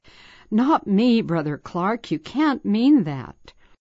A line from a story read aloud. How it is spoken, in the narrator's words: I sensed immediately my inability and limitations, and I cried back